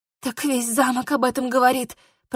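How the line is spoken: Hoarse, flustered female wheeze. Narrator (Russian): просипела я, понимая, что по глупости прокололась

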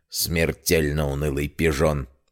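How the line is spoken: Old man's sighing mutter. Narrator (Russian): Старик вздохнул, а потом пробурчал себе под нос

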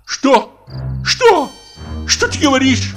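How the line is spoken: Shouting at full voice. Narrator (Russian): крикнул во все горло Мигуев

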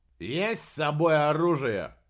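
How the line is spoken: Rough, rude question. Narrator (Russian): грубо поинтересовался вышибала

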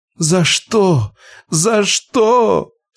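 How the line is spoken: Sobbing. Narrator (Russian): Сотрясаясь в рыданиях, она

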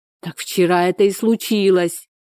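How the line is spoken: Exclaimed. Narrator (Russian): воскликнула Надежда

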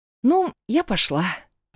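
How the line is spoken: Forced out, embarrassed, halting. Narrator (Russian): выдавила она и, смутившись, сбивчиво добавила

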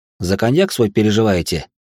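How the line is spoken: Joyless snort. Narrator (Russian): Он невесело хмыкнул

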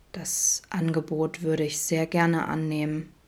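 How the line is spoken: Low murmur. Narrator (German): raunte

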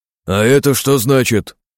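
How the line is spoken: Grumbling. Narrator (Russian): проворчал Синицын

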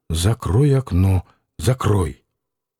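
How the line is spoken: Angry whisper. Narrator (Russian): сердитый шепот

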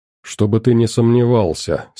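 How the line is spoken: Calm reply. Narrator (Russian): спокойно ответил я

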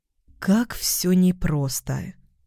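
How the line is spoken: Thoughtful drawl. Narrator (Russian): задумчиво протянула

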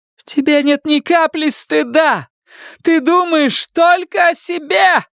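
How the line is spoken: Shouted. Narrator (Russian): прокричала Карла

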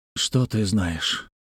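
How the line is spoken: Sighing reply. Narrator (Russian): вздохнув, ответил Лимянь

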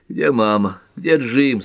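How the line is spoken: Restless moaning. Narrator (Russian): стонала метаясь в постели

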